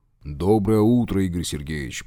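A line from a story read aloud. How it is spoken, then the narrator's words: Deep booming voice. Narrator (Russian): прогудел один из них, ростом на полголовы выше второго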